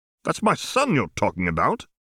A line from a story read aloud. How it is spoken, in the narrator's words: said Tom sharply